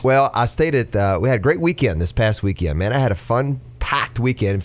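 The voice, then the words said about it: Congested, deeper radio-style voice. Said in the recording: “I've got my radio voice on today. ... A little head cold.”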